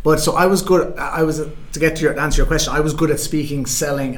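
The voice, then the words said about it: Irish accent. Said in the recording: “having an Irish accent”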